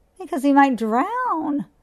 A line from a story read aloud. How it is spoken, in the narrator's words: squealed Mrs